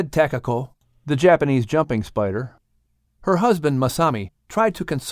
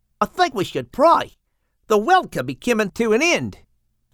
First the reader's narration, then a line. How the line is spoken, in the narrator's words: Stuart, the praying mantis, exclaimed